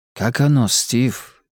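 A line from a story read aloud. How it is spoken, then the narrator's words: Quiet question. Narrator (Russian): тихо спросил Сурендра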